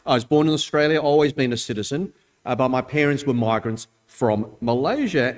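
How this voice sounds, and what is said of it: Thick Australian accent. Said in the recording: “the thick Aussie accent I have”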